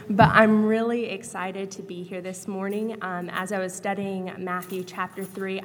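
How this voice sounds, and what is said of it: Voice sounding like a cold. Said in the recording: “I have a little bit of a cold, so if you hear me coughing a little bit”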